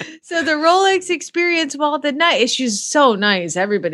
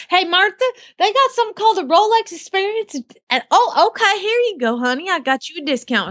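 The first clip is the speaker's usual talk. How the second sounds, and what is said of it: Put-on Southern American accent. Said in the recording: “It's because they're Southern sweet. They probably talk to you in your accent.”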